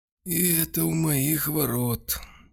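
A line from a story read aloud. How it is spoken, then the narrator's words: Sad old man. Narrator (Russian): печально произнес старик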